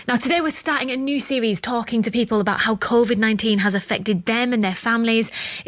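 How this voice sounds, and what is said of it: Regional accent. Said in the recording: “Presenter Helen Skelton with a lovely regional accent.”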